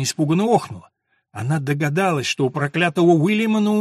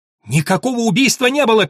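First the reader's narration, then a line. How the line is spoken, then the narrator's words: Shouted. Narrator (Russian): крикнула она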